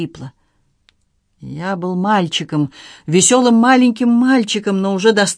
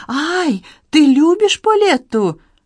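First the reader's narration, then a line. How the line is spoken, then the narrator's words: Frightened girl's cry. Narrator (Russian): Девочка со страхом вскрикнула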